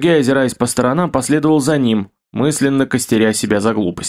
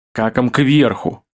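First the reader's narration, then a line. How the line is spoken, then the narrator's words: Growled. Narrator (Russian): рыкнул Кирилл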